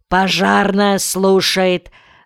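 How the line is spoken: Deep bass, over phone. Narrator (Russian): басом ответил в свою переносную трубку телефонист

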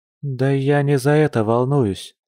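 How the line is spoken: Sighing she-bear. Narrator (Russian): вздохнула медведица

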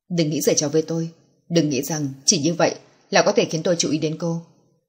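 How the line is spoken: Cold man's voice. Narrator (Vietnamese): lạnh lùng nói

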